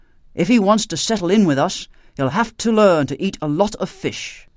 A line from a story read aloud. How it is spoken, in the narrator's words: he ended firmly